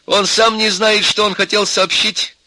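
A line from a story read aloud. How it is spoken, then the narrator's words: Angry. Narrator (Russian): сердито сказала Нюра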